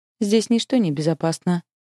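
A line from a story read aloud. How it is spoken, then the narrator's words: Grim smirk. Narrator (Russian): мрачно усмехается Харон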